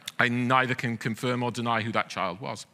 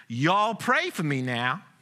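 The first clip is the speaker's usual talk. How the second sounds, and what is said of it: Child's charming southern accent. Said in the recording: “crying out in his charming southern accent”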